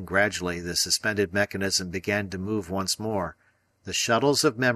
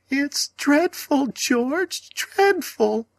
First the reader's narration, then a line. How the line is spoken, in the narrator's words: the lady cried in an agony of sobs